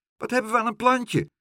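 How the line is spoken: Pigeon calling out. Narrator (Dutch): riep dikke Dolly de duif

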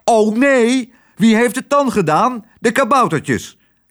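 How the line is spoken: Man calling out. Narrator (Dutch): riep haar man

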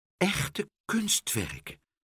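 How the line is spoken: Whispering. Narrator (Dutch): fluisterde hij

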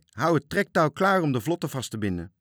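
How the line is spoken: Shouted. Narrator (Dutch): riep hij

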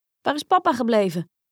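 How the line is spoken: Brother calling out. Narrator (Dutch): riep een van de broers

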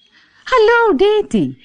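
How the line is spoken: Called out. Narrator (Dutch): riep

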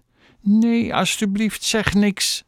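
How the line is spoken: Pleading. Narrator (Dutch): smeekte Chloe

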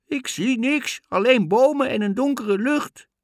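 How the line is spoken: Calling down. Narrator (Dutch): helemaal van boven in de toren riep Anna naar beneden

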